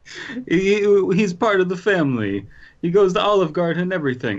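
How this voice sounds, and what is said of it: Bad put-on Italian accent. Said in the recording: “my terrible Italian accent”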